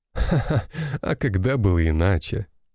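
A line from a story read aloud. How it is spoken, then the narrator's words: Laughing. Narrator (Russian): рассмеялся Соколов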